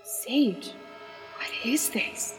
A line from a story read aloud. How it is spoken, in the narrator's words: whispered Naomi with a hoarse and shaken voice